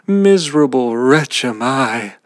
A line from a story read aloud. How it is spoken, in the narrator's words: the carter saw this, he again cried out